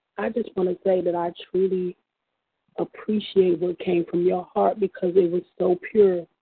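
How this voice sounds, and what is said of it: Sick, strained voice. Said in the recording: “Excuse my voice. I'm a little under the weather.”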